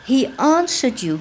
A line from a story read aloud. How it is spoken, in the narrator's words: gasped Max